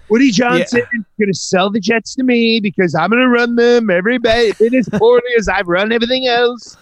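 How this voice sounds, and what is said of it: Imitates another person's voice. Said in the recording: “your Trump impression is pretty good”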